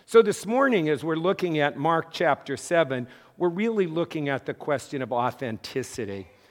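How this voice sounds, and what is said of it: Hoarse, strained voice. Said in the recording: “I lost my voice and I kept talking”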